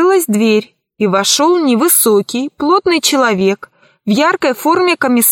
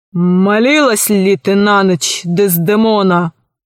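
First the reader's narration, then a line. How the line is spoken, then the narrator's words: Menacing voice. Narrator (Russian): Джавад спросил грозным голосом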